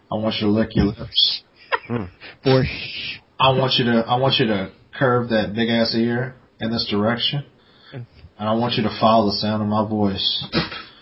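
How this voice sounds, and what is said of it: Mock seductive sexy voice. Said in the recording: “sexy voice”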